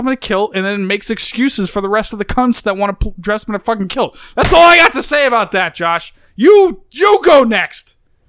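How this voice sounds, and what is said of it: Strong New York accent, angry. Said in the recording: “the New York accent broadens as he gets angrier”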